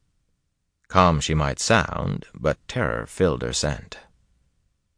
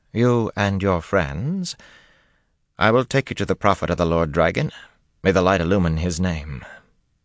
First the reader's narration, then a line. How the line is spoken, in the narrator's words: said calmly